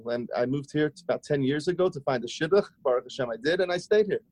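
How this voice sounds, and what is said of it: Fading Australian accent. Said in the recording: “your accent, it's funny because you're saying how you're sort of losing your accent. I still hear it. I still hear it ... Australian”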